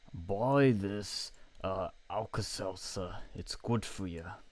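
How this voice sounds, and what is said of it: Bernie Sanders impression. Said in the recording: “Bernie Sanders ... Can't do a good impression.”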